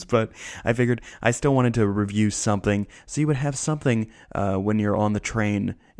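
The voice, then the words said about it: Weird put-on voice. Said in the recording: “I don't know why I'm doing a weird voice,”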